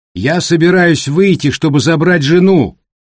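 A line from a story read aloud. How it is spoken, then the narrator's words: Shouting. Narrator (Russian): крикнул Питер Джексон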